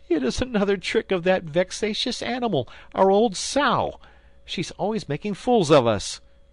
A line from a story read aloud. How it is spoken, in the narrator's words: cried he